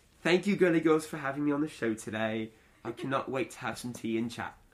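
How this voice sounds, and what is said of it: Put-on British accent. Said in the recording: “Do your best British accent. ... That was excellent.”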